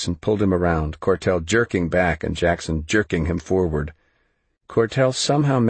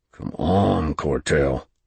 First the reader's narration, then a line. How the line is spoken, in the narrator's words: Jackson hissed